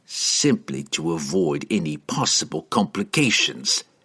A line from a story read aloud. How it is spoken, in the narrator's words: said grimly